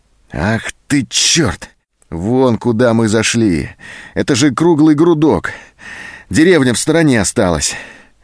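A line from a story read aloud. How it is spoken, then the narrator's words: Disappointed exhale. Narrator (Russian): Зоська разочарованно выдохнула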